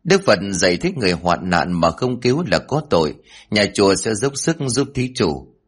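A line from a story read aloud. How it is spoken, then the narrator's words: Kind smiling monk. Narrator (Vietnamese): Cao tăng mỉm cười hiền từ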